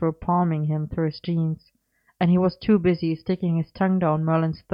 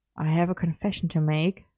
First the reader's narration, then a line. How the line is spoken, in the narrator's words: he murmured